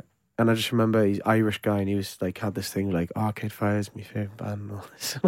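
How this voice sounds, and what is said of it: Usual voice. Nothing is said of it.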